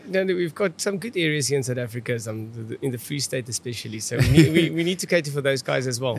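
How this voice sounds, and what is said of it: Afrikaans-accented English. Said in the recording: “my Afrikaans accent”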